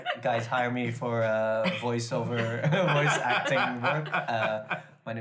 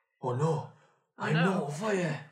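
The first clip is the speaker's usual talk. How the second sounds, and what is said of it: Northern English accent character impression. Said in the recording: “That's my Jon Snow slash Northern impersonation. ... Really good accent. ... that was pretty good.”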